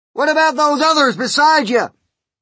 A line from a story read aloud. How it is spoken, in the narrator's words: shouted the chief of police